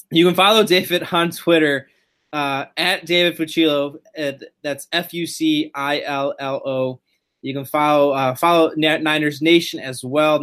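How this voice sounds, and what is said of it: Voice failing, losing his voice. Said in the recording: “Excuse me, I'm losing my voice”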